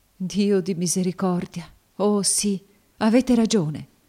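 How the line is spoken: Sobbing exclamation. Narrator (Italian): esclamò fra i singhiozzi

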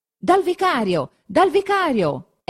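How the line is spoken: Shouting. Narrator (Italian): il solo grido che si possa sentire

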